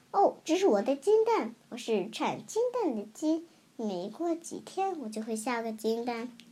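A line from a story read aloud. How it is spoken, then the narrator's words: Shrill, greedy monster. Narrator (Chinese): 尖声怪物贪婪的说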